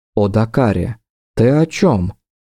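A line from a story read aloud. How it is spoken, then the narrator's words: Perfectly calm, hiding fear. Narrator (Russian): Совершенно спокойно, ничем не выдав страха, что всего секунду назад плескался в каждом ее вздохе, произнесла Ингария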